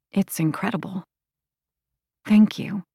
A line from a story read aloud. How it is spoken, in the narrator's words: she whispered